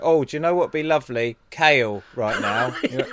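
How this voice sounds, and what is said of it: Good impression of another person's voice. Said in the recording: “That was a really good impression.”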